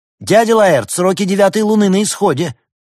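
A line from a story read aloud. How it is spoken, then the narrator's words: Shouted out. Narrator (Russian): Артем выкрикнул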